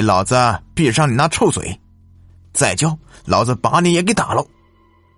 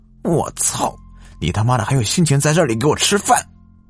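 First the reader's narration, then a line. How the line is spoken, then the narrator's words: Angry, panting curse. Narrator (Chinese): 张老三愤怒 喘着粗气 骂道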